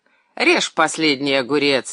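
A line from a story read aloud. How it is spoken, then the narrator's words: Mocking man interjecting. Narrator (Russian): насмешливо ввернул Андрей Иванович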